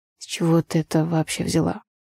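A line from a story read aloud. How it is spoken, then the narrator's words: Asked hoarsely. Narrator (Russian): хриплым голосом спросил Андрей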